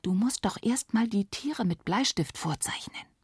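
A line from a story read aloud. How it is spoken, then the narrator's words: Whispered. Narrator (German): wisperte Nele ihr zu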